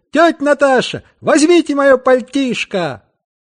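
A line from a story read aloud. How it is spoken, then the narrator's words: Shout. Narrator (Russian): крикнул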